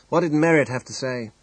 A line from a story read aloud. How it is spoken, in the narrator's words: asked Forbes